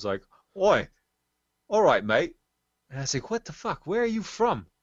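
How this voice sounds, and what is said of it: Deliberately bad put-on New Zealand accent. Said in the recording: “I'm going to do a bad accent here ... I came here from New Zealand”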